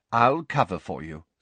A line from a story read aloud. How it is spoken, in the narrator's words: said Mr